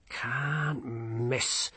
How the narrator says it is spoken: muttered Colon

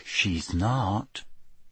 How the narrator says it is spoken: said Ginny quietly

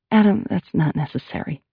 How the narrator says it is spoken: Carrie said in a softer tone

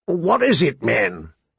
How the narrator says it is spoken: Mormont said gruffly

